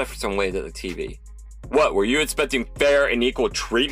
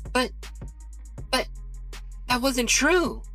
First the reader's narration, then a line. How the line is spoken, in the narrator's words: Erica stammered